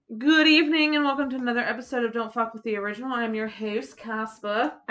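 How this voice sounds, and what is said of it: British accent. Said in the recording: “I'm the one with a British accent”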